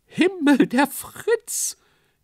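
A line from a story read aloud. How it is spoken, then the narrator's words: Shriek. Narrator (German): kreischte jemand auf der Bühne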